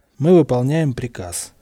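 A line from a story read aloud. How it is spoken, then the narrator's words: Dry reply. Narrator (Russian): сухо отвечал пират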